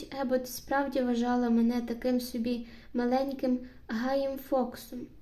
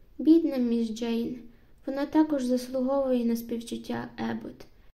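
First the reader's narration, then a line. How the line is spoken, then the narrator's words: Sighing. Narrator (Ukrainian): Бесі зітхнула і сказала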